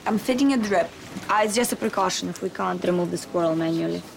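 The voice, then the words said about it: Strong accent, hard to understand. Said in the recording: “I can barely understand your accent, love.”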